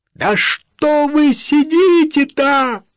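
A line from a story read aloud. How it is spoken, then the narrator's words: Exasperated shout. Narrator (Russian): не выдержав, закричал он в неподвижную спину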